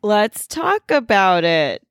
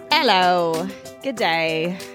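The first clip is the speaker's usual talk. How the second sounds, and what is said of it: Unconvincing attempted Australian accent. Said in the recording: “Is that your Australian accent? ... Is it not Australian? ... No.”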